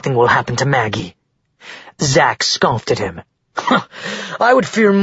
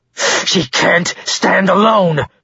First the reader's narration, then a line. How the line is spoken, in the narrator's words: Ren roared as his anger boiled inside him